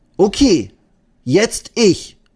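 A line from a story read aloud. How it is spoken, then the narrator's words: Called out. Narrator (German): ruft Eddie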